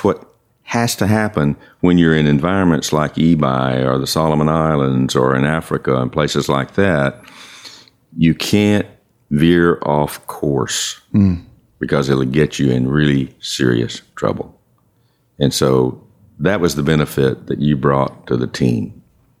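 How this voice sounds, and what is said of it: Professional radio voice. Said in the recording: “has a professional radio voice.”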